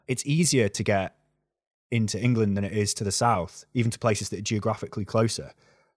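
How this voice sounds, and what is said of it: North Wales accent. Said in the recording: “listen to my accent, right? North Wales”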